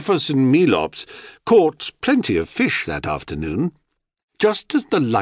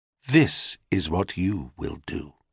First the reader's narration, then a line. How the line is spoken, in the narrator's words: said quite calmly